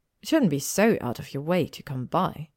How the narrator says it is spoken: she said icily

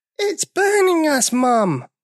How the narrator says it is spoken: they cried

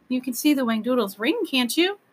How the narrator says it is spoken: she cried

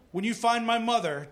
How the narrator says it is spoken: John said

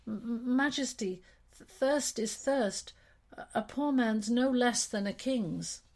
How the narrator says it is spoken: he could only stammer

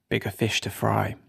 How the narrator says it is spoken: Luke muttered

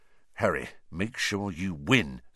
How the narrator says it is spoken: said Percy in an urgent whisper

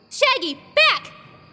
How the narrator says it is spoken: Saria yelled

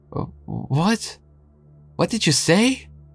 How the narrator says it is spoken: stammered

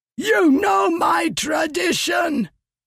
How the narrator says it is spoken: he shouted at Leshwi

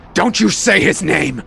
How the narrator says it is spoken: Norman yells

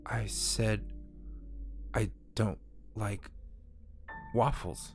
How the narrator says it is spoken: repeated in a dull monotone

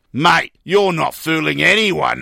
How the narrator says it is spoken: sneered

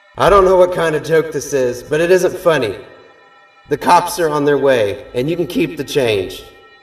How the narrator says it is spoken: yell

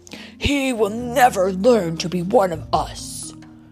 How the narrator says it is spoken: Kerchak growled

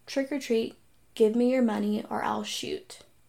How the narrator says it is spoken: the person just very calmly said

